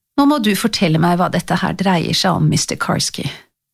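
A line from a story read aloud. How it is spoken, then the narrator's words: Quiet. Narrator (Norwegian): Tante Dorothy sa stille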